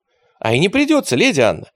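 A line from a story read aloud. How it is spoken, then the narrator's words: Joyful exclamation. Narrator (Russian): радостно воскликнул поэт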